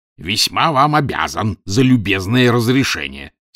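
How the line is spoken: Angry reply. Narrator (Russian): сердито отозвался профессор Челленджер

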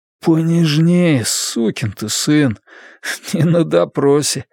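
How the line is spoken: Tired strained smile. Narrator (Russian): с усталой улыбкой выдавил

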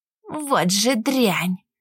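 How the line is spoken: Muttered through gritted teeth. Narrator (Russian): процедила сквозь зубы

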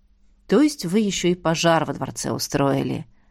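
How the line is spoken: Sighing. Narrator (Russian): вздохнул полковник

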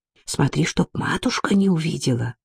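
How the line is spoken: Whisper into ear. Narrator (Russian): шепнул он на ухо сестре

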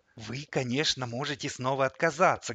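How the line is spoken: Fervent whisper, devil. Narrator (Russian): горячо шептал мне в ответ черт

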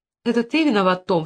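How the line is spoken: Hurt tone. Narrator (Russian): сказала она обиженно

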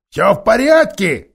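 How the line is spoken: Shouting. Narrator (Russian): кричал он

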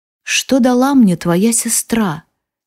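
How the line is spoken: Quiet. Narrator (Russian): тихо спрашивает он

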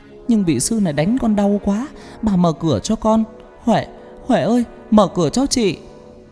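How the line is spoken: Wailing desperately. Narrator (Vietnamese): Con Hoa gào khóc thảm thiết

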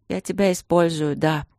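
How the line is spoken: Sad. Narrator (Russian): грустно сказала я

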